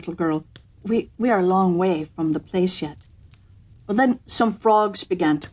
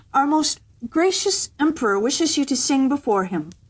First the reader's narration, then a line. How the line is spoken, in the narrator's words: cried the girl, raising her voice